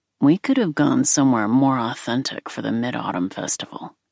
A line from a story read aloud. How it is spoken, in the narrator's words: he grumbled